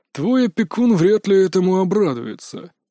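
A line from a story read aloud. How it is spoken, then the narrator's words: Sigh. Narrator (Russian): вздохнул он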